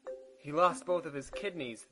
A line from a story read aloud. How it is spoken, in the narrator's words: the nurse exclaimed